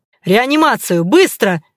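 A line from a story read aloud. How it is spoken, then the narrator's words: Barked. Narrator (Russian): рявкнул Кравцов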